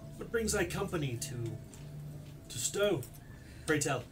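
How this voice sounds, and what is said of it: Character voice with put-on regional accent. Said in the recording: “He clearly has an Iridane accent. ... He has a clear southern Iridane accent.”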